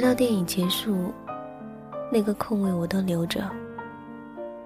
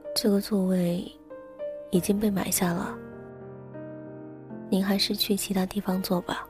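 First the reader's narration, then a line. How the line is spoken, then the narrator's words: Soft-spoken. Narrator (Chinese): 轻声的说了一句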